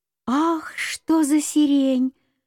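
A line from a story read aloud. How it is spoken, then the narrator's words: Exclamation. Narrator (Russian): воскликнула Беляночка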